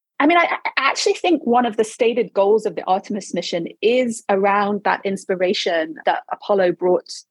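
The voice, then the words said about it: Non-American accent. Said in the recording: “You can hear from my accent, I didn't even grow up in America”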